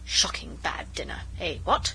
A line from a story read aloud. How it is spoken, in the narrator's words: we heard him mutter to himself